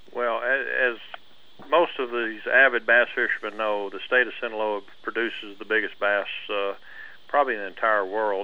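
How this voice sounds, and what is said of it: Soft-spoken slight Texas drawl. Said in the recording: “you get a little Texas drawl. You're speaking a little soft”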